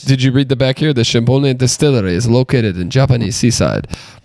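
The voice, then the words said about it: Put-on accent. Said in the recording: “don't do that accent... Don't do that accent.”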